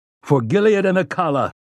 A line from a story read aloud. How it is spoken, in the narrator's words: roared